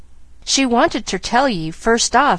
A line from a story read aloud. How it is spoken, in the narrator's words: continued Nancy, a little unsteadily